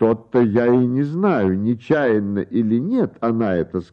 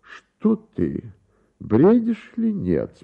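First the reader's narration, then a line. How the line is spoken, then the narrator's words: Calm reply, count. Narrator (Russian): спокойно отозвался граф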